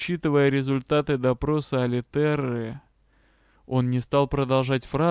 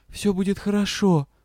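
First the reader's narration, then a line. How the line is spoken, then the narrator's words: Whisper. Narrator (Russian): прошептала я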